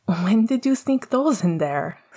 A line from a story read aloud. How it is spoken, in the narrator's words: Sirius laughed